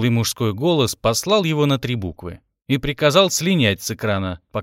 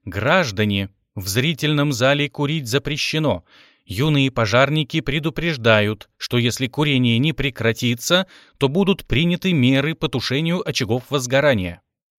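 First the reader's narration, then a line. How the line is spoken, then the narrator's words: Mechanical voice. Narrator (Russian): Родион механическим голосом произнес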